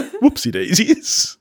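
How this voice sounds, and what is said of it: Put-on posh British accent. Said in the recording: “Try to say whoopsie daisy in a British accent. ... That was totally Hugh Grant.”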